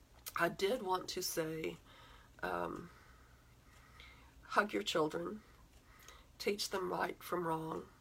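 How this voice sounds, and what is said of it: Hoarse, fading voice. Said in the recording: “I'm losing my voice the more I talk”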